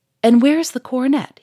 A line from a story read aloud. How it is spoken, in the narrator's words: he said in an excited voice